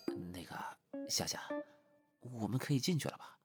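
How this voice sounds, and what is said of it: Quiet, hushed question. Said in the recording (Chinese): “小声的问道”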